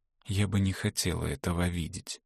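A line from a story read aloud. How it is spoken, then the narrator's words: Whisper. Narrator (Russian): прошептала Эгле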